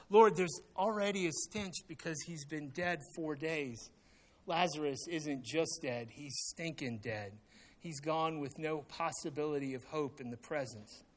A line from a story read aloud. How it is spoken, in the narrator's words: Martha, hopelessly confused by such antics, cries out